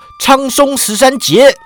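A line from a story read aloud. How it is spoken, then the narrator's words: Excited shout. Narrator (Chinese): 郑恒洲练得兴起，叫道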